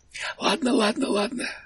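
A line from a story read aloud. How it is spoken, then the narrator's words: Hoarse whisper. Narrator (Russian): хрипло прошептал толстяк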